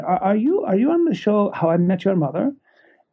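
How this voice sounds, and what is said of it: Heavy Indian accent. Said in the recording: “she had a heavy Indian accent.”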